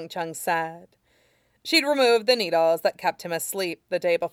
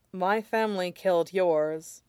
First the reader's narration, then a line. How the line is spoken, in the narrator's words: said with a sigh